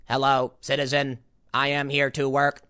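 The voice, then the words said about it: Robotic voice. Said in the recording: “voice changer. So you all talk like robots.”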